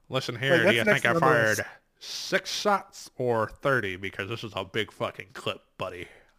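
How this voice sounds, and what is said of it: Imitates another person's voice. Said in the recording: “that terrible impersonation ... That was an awesome impersonation.”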